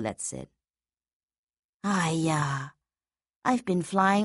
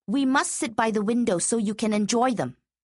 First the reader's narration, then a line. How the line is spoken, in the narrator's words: Colette said sharply